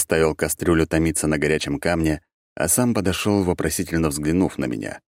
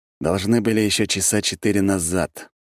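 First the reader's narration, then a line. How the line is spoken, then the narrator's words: Grim. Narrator (Russian): мрачно сказал я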